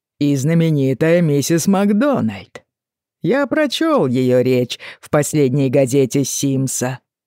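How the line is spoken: Unkind laughing remark. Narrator (Russian): добавил он, снова недобро посмеявшись

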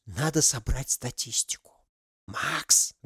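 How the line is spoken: Loud whisper. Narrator (Russian): Громким шепотом позвала она друга

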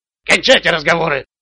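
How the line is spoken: Sharp shout. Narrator (Russian): прикрикнул на них парень с дробовиком

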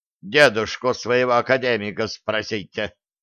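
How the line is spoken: Angry female gnome. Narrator (Russian): сердито сказала гнома

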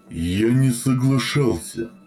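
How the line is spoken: Sleepy drawl. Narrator (Russian): сонно протянул Центурион, пребывая на краю убийственного транса

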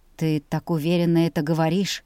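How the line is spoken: Heavy sigh. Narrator (Russian): Он тяжело вздохнул

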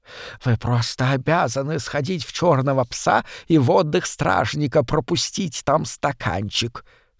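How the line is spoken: Heavily lisping man. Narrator (Russian): сообщил ей сильно шепелявый мужчина

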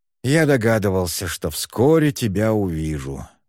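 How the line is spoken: Sighing. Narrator (Russian): вздохнул тот

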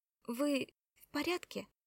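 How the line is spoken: Timid question. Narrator (Russian): робко спросила Кора

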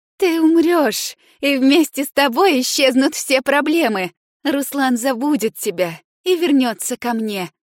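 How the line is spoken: Laughing. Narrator (Russian): Инна рассмеялась

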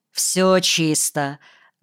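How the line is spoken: Curt, clipped. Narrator (Russian): отрывисто сказал Кирка

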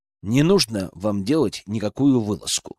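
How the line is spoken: Plain. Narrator (Russian): сказал я Глебову

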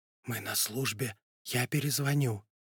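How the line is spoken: Whisper. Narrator (Russian): она ответила шепотом

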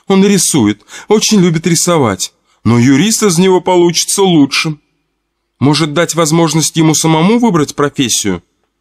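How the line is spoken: Timid inquiry. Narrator (Russian): робко поинтересовалась кассирша

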